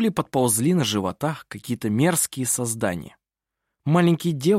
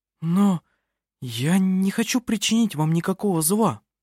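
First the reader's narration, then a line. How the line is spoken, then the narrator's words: Frightened woman speaking. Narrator (Russian): испуганно произнесла она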